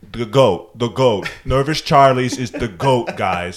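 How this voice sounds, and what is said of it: Imitates another person's voice. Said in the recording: “this is my Pete impression, if you can't tell.”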